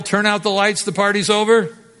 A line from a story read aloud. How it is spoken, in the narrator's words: finally yelled